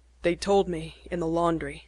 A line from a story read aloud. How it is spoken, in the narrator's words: said harshly